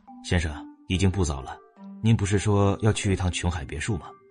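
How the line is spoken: Quiet reminder. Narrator (Chinese): 文杰斯低声提醒他道

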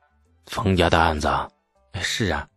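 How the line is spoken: Lowered voices. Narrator (Chinese): 程咬金和牛进达压低了声音

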